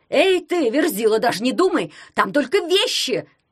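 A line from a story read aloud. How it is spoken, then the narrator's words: Yell. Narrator (Russian): завопил Дурнев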